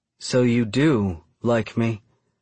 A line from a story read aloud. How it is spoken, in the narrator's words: she says, her voice less upset than it was before